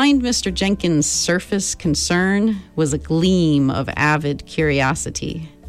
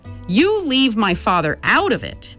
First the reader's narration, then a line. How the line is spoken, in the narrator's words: Meg shouted